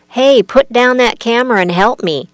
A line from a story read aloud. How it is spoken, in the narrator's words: He cried out to the film crew